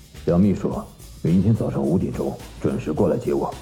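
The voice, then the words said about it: Deep, resonant male voice. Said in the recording (Chinese): “一个浑厚的声音说道”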